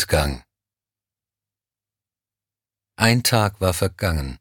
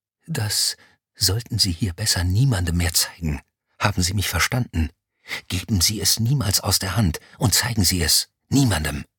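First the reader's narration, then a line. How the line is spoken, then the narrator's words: Rough breathy whisper. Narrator (German): Grob hauchte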